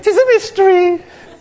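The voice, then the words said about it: High-pitched Scottish accent impression. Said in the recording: “very roughly how he would say it ... It sounds almost effeminate ... that high-pitched Scottish accent”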